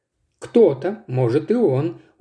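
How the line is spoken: Tired sigh. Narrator (Russian): устало вздохнул волк

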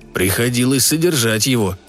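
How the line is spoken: Gloomy. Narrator (Russian): сказал папа мрачно

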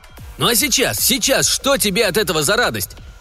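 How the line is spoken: Shout. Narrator (Russian): крикнул он Лесперу

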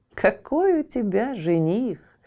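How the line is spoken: Laughing friends. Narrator (Russian): смеялись подруги

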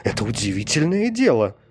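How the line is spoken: King's exclamation. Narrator (Russian): царь воскликнул

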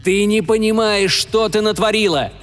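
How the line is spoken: Yelling cyborg. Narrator (Russian): орал киборг

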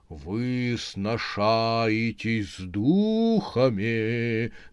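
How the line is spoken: Sepulchral proclamation. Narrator (Russian): за могильным голосом вещала мадам Жапотинская

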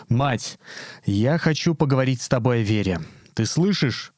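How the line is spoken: Raised, stern, commanding voice. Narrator (Russian): отец Игнатий, возвысив голос, заговорил строго и властно, как он говорил с исповедующимися

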